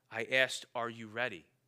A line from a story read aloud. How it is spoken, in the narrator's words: said the lion